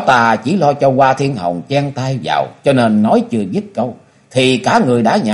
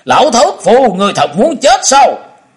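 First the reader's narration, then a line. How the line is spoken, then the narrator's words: Shocked, furious roar. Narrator (Vietnamese): Thông Thiên giáo chủ kinh nộ, gầm lên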